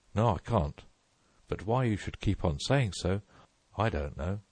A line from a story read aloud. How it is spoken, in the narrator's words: rather crossly